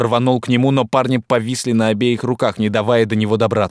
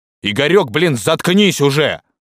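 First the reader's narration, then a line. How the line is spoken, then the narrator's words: Barked. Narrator (Russian): рявкнул Корнейчук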